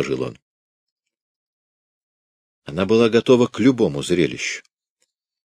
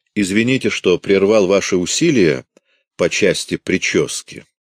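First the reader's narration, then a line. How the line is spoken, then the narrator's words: Plain. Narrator (Russian): сказал он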